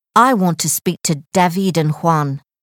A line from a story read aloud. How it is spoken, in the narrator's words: said Jonathan